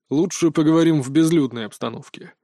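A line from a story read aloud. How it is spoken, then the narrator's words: Grumbled. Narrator (Russian): буркнул Шершнев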